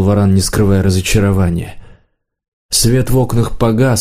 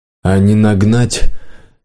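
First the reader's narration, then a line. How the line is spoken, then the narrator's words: Sighing. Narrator (Russian): хозяин снова вздохнул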